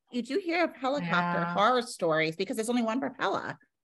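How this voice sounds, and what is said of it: New York accent. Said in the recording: “that's my New York accent coming out”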